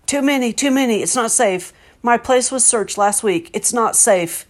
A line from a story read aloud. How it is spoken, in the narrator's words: he shouted